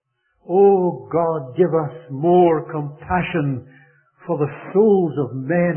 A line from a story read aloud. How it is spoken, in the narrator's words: he cried out to God